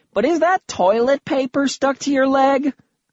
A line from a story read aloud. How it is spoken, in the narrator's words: she bellowed